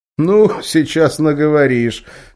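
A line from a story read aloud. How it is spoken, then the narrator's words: Lemur chuckling. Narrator (Russian): хохотнул лемур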